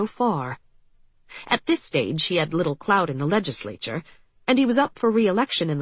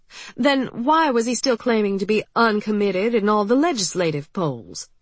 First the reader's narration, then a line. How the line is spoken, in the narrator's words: she asked